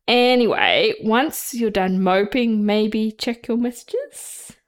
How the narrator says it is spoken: Lucius said, with muffled laughter

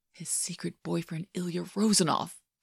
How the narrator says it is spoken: JJ whispers

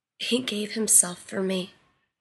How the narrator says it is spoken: whispered brokenly

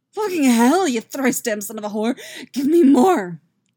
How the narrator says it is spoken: Yaskir gasps out, soft and helpless

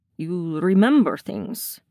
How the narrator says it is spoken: he says thickly

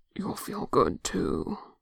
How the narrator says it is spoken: Jungin mutters

